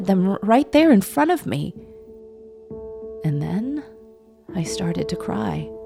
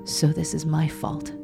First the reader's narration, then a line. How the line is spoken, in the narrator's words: muttered to no one in particular